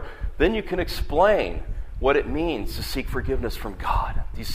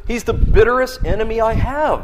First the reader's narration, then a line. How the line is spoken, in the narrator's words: cried the old preacher